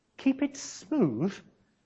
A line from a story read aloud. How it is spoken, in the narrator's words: Peter chuckled to Andrew